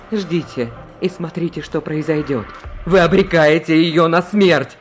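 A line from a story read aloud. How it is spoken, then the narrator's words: Exclaimed. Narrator (Russian): Воскликнул он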